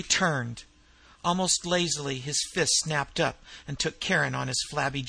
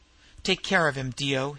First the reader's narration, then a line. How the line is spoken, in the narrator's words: he grunted